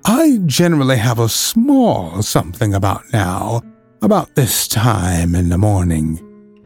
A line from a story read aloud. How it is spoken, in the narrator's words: he went on dreamily